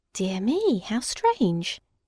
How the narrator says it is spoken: murmured the bunny

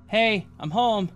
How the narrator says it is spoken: I yelled from my living room

